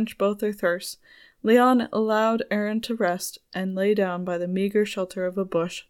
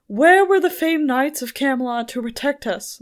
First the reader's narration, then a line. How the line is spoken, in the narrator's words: Leon shouted